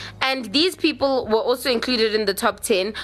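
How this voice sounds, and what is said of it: Usual voice. Nothing is said of it.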